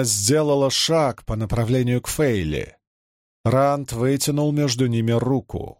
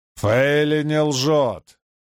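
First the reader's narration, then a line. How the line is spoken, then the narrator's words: Growl. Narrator (Russian): прорычал Перин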